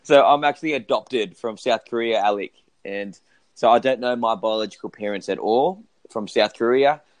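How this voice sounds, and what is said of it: Australian accent. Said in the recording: “sound very Australian”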